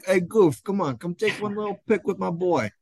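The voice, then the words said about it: New York accent impression. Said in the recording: “the Ralph accent ... impersonation. My dad's from New York City.”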